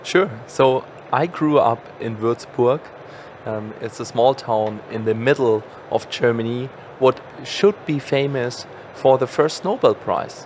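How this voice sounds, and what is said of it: German accent. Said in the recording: “if you don't mind me saying, accent... is from Germany”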